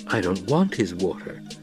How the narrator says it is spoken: Paul muttered

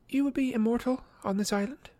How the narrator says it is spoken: said quietly

